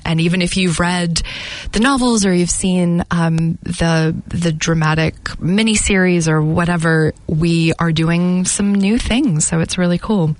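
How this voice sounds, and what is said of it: Slight American accent. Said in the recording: “do I detect a slight accent? ... Oh, yes, for sure. That's very sweet that you said slight. Yeah, it doesn't go away. Yeah, I originally am from the States”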